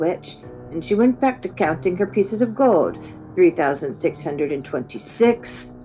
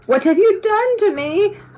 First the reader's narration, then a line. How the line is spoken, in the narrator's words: squealed the princess